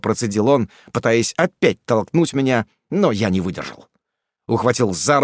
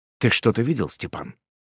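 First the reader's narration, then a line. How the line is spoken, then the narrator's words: Cold mutter. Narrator (Russian): холодно пробормотал я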